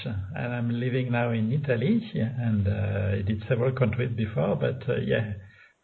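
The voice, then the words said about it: French accent. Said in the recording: “that beautiful accent you have ... I have a French accent”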